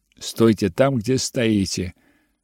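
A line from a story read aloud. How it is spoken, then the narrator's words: Plain. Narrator (Russian): ответила я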